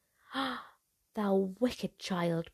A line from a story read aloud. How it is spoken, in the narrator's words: cried the enchantress